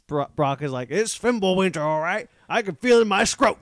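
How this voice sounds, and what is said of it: Good impression of a game character. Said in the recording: “That's a good impression.”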